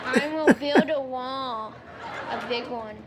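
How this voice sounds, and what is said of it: Imitates another person's voice. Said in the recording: “Can you do an impression of him?”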